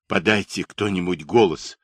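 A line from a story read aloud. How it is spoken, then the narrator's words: Hoarse general's voice. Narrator (Russian): хрипло проговорил генерал Чумаков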